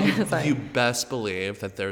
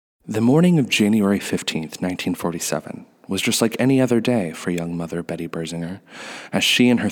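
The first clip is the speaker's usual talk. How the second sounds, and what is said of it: Dramatic narrator voice. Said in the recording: “should do my narrator voice ... there's like a certain flair to this ... dramatic”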